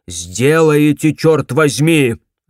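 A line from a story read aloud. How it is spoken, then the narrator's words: Barked. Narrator (Russian): рявкнул Лассер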